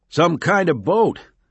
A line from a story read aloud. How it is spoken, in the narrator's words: Giardino shouted back